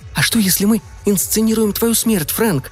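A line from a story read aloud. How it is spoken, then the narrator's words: Shouted whisper. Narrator (Russian): кричала шепотом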